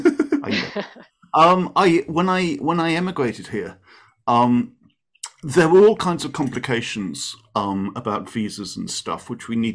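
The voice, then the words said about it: Non-Californian, foreign accent. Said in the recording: “you will have gathered from my accent that I am not a native Californian”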